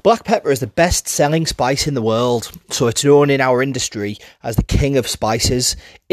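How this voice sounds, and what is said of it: Middlesbrough English accent. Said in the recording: “my Middlesbrough accent.”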